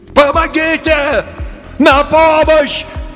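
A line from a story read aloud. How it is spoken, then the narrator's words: Faint distant radio shout. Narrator (Russian): кричал мистер Тиркель издалека на слабой радиоволне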